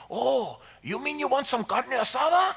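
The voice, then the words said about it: Put-on strong Hispanic accent. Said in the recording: “He has a strong Hispanic accent.”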